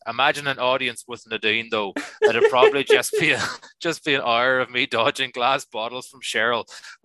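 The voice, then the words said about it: Good put-on Northern Irish accent. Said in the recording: “Your accent is pretty good. ... I watch a lot of Derry Girls.”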